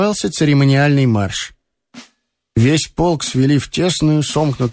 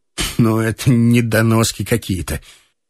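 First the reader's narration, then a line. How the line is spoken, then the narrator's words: Disgusted. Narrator (Russian): сказал с отвращением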